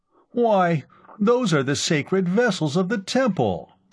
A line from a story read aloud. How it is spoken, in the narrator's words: Temendrav cried, scandalized